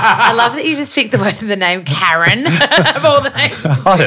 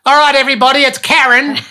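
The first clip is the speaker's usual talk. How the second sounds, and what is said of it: Broad Australian accent. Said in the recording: “So Australiana.”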